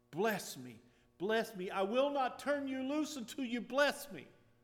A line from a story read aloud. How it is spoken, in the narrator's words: Jacob would not turn loose of the angel and cried